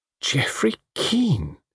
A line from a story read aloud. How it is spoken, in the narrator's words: murmured Diana